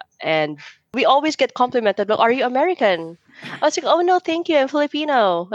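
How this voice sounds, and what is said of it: Filipino-English accent. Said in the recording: “my accent would be like Filipino-English accent”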